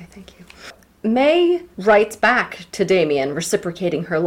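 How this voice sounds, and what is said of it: Usual voice. Nothing is said of it.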